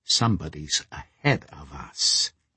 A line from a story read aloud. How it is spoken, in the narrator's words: he whispered